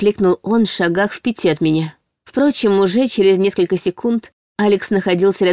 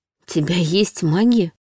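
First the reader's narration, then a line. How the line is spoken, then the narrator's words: Surprised, tearful whisper. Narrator (Russian): удивленно прошептала я, смахивая невольные слезы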